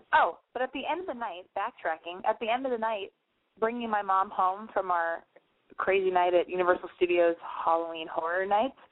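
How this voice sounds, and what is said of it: Slightly hoarse, tired voice. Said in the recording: “I'm still tired ... my voice is a little hoarse.”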